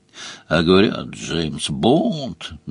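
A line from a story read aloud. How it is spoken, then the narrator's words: Grumbled. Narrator (Russian): проворчал Сварог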